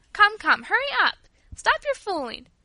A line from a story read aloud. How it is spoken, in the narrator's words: cried Louis